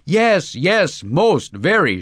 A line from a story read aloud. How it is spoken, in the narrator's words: shouted Vladimir Vrusilov enthusiastically